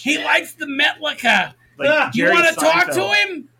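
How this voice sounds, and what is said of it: Imitated mother's voice, Jewish-sounding accent. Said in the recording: “impersonation ... Anytime we impersonate her, she becomes Jewish.”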